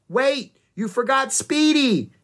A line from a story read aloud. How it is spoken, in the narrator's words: Annie shouted